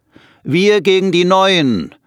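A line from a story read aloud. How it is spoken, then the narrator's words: Calling out. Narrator (German): ruft einer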